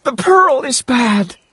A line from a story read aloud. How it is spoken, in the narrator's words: cried